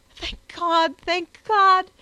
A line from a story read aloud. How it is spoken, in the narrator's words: she cried in the most impassioned accents